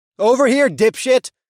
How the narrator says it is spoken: cried out as I lunged

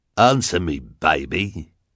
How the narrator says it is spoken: the hook-handed man growled

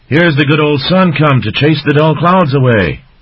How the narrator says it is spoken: Elikim the otter yelled

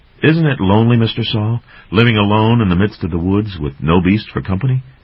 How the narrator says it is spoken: Dan asked

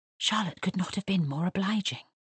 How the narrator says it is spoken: whispered Lizzie

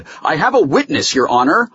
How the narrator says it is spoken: Holloway said loudly

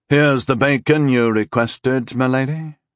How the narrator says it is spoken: Rondal said in a toneless voice

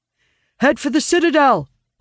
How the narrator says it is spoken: Owen shouts at them

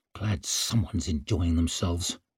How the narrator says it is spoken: he grumbled under his breath

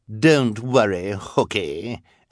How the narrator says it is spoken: Esme replied mockingly

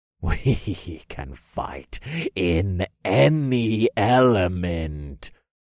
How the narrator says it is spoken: the deep voice growled over the wind

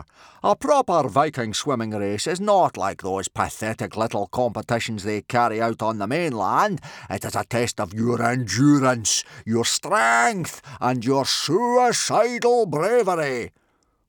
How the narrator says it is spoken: boomed Gobber

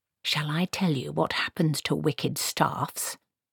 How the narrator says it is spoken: She hissed

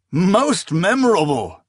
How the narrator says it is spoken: he cried

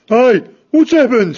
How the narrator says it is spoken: Fangburn shouted

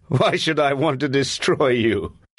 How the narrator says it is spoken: He said, laughing

